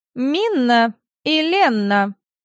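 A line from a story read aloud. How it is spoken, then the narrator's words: Shrill. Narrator (Russian): Пронзительным голосом сказала принцесса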